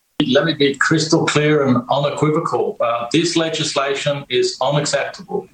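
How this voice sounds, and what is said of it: Ambiguous accent, partly Australian, Scandinavian. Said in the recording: “has a strange accent, which I can't quite figure out, some Australian and also a little bit like Scandinavian”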